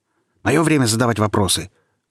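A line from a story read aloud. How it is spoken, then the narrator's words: Boy barking loudly. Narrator (Russian): гаркнул мальчишка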